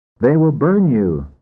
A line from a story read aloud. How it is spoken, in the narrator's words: said some